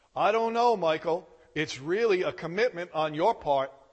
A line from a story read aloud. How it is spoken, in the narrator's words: the father said